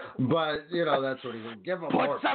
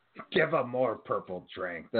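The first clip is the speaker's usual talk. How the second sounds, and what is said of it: Bad Vince McMahon impression. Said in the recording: “That's the worst Vince impression ever.”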